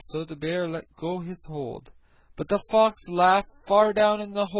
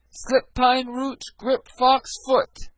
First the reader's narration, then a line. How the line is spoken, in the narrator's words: Reynard was now in a fix, but he was not to be outwitted, and he cried